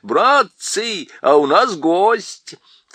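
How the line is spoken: Shouting. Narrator (Russian): Дафул крикнул

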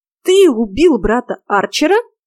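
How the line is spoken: Indignant exclamation. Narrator (Russian): возмущенно воскликнула я

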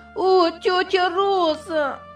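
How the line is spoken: Exclaiming. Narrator (Russian): Воскликнула Дженни

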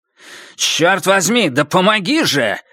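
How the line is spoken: Angry bark. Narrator (Russian): рявкнул он

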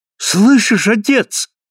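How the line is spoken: Ecstatic exclamation. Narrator (Russian): воскликнул слепая вне себя от восторга

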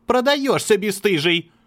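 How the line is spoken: Woman shouting. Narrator (Russian): кричала женщина с ножом

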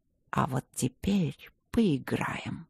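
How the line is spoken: Man's soundless mouthed whisper. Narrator (Russian): Одними губами прошептал мужчина

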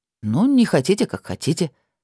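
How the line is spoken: Calm. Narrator (Russian): спокойно сказал Виллард

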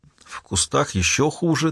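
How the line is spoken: Trembling voice. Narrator (Russian): дрожащим голосом произнесла Хольм

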